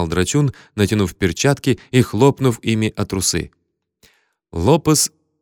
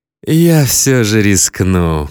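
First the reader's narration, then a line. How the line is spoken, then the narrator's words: Purring voice. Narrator (Russian): промурлыкал всадник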